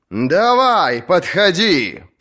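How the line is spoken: Roared reply. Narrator (Russian): проревел он в ответ

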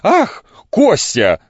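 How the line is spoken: Shouting. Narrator (Russian): закричала она

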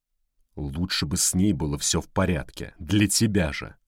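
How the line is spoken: Growl. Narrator (Russian): прорычал он

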